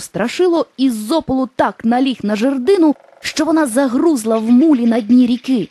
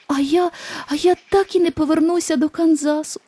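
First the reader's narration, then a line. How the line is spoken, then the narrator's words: Sobbing. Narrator (Ukrainian): схлипнула Дороті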